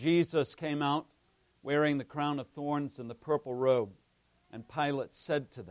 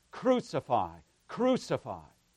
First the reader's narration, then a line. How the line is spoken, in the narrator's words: the chief priests and officers … they cried out, saying